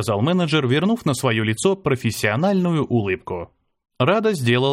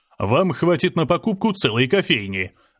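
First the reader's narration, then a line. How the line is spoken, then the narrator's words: Laughing. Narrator (Russian): рассмеялся менеджер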